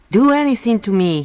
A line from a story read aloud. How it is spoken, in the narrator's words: he yelled